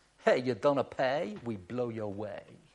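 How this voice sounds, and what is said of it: Put-on Italian accent. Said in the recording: “my Italian accent. If that was an Italian accent”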